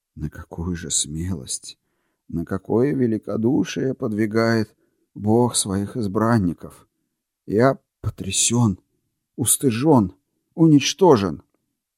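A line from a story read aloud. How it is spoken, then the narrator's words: Quiet, strained voice. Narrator (Russian): сделав над собой усилие, он выговорил тихим голосом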